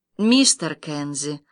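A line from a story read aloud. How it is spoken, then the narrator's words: Gentle voice. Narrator (Russian): ласково сказал голос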